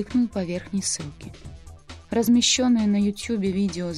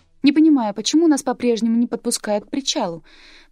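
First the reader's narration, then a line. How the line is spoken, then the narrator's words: Squeaky offscreen female voice. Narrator (Russian): пропищал женский голос за кадром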